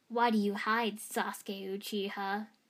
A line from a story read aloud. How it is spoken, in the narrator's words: Gaara growled, almost like he was taunting